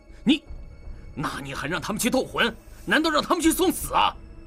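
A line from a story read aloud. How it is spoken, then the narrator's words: Raised, furious, booming. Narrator (Chinese): 弗兰德的声音明显抬高了，伴随着怒火迸发，整个房间都在他的声音中颤抖了一下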